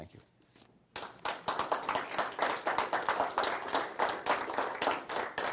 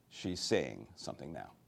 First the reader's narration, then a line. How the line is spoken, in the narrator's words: Miss Alice said quietly